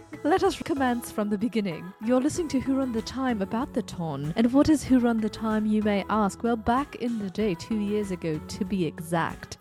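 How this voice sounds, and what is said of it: Put-on accent. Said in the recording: “I'm going to go back to my normal accent.”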